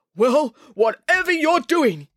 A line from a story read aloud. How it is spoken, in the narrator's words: yelled the chairman